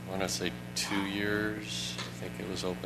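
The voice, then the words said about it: Quiet mumbled speech. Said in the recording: “I can't hear you. ... I'm mumbling”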